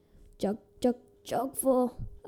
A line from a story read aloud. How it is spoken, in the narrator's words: a croaky voice said